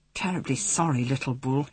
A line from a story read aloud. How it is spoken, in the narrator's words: mumbled